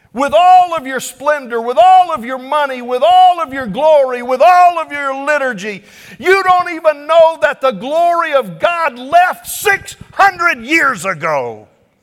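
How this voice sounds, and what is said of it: Yelling, loud preaching voice. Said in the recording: “I should quit yelling, I'm sorry.”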